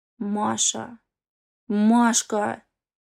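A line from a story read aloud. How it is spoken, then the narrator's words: Hoarse chest cry. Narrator (Russian): Вырывается из мощной грудной клетки хриплое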